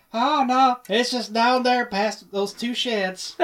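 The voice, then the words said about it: Texan drawl character voice. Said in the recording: “Do the Franklin voice. ... That's pretty good. ... I can't pull the Texas out of me”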